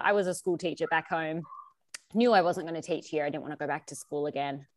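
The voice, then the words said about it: Nasal Australian accent. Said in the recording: “as you can tell from my voice. I am Australian ... this nasalness just kind of comes with me everywhere I go ... I love your accent.”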